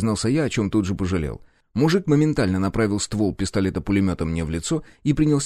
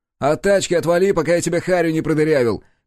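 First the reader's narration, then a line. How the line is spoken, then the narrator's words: Shouting driver. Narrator (Russian): крикнул водитель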